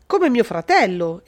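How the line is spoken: Exclaimed. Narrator (Italian): esclamò Arnaldo

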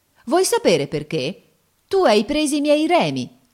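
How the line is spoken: Exclaiming. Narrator (Italian): esclama volgendosi al prodiere

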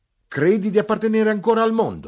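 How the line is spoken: Shouting. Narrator (Italian): gridai

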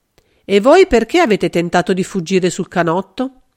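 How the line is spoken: Answered in hard voice. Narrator (Italian): Nichols fu con voce dura che rispose

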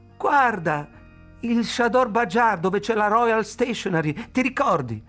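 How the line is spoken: Shouted. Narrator (Italian): gridò

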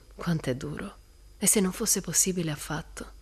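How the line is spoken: Sighing. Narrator (Italian): sospirò Jim

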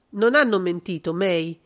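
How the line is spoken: Cold. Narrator (Italian): pronunziò freddamente John Michael

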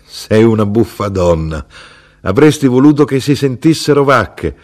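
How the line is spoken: Inner voice, half-laughing. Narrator (Italian): quasi ridendo, dissi

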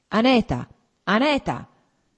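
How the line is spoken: Harsh calling. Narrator (Italian): chiamò con voce aspra

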